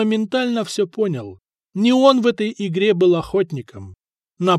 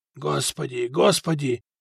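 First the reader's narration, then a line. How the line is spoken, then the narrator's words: Frightened whisper. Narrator (Russian): шептал Фока побледневшими губами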